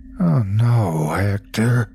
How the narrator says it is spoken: I moaned

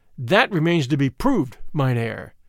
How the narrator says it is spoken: I answered hotly, for the insinuation that I had sold out stung me

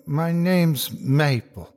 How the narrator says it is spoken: said in a jittery voice

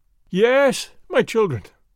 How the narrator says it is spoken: I cried

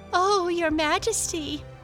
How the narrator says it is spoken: laughed Lotta

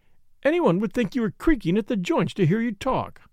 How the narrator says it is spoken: cried Flora, half vexed, half amused

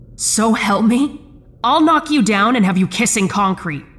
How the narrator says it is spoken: I shouted

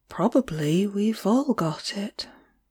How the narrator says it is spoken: I answered dreamily

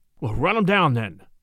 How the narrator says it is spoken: Charlie exclaimed

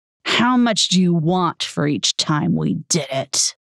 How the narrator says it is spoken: sneering

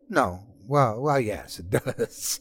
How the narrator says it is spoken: he giggled

